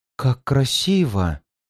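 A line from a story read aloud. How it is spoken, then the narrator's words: Admiring whisper. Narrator (Russian): прошептала Луана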